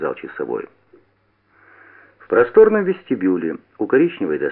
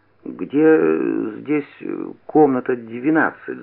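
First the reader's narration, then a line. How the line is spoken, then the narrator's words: Stammering question. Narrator (Russian): запинаясь, спросил я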